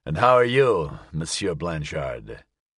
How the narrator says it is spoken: he said, his voice thick from what little sleep he had managed

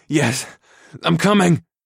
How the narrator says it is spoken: I grunted

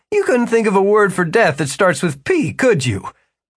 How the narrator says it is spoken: Jimmy laughed as well

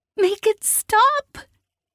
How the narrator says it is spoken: Kalin wailed in a moment of lucidity

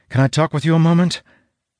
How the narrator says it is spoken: called breathlessly

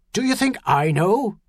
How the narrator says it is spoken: Magee snarled back

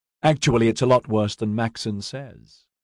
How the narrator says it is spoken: Ediard said cheerfully

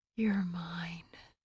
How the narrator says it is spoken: Nesta … whispered

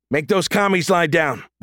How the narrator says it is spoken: Reach bellowed

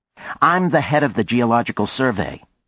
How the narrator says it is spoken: she said sharply

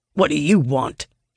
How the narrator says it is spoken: snaps

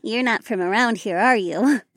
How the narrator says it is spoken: the redhead laughed

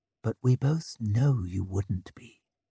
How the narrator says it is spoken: She leaned close to murmur

